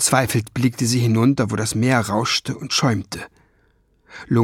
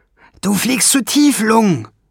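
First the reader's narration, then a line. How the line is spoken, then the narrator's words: Calling out. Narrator (German): rief Schwefelfell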